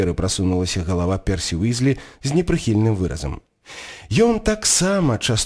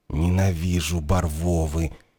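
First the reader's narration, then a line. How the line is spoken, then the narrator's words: Hesitant groan. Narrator (Belarusian): нерашуча застагнаў Рон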